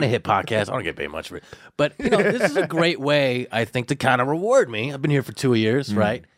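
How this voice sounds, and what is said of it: Usual voice. Nothing is said of it.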